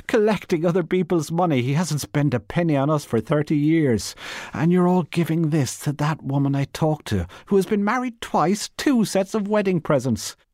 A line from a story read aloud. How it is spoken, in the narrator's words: she cried